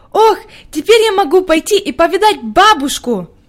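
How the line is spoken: Joyful. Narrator (Russian): радостно проговорила Хади

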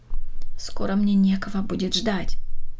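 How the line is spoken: Old woman answering. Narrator (Russian): ответила бабушка Катерина

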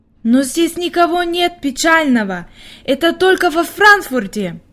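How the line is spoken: Exclamation. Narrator (Russian): воскликнула Хайди

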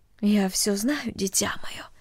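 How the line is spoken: Quiet motherly voice. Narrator (Russian): тихо сказала мать

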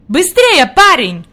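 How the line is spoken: Shouting. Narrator (Russian): крикнул господин Сесман

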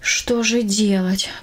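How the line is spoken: Sighing. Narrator (Russian): вздохнула она

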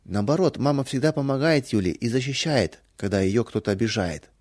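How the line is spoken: Plain. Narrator (Russian): сказала Валя

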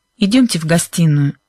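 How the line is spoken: Tense voice. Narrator (Russian): напряженным голосом проговорил мистер Уилкинс

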